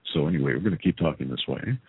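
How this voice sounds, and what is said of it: Deliberately deep voice. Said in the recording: “that deep thing with my voice ... I'll do this deep voice thing”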